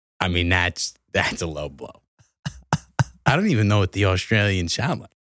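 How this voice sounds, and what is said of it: Usual voice. Nothing is said of it.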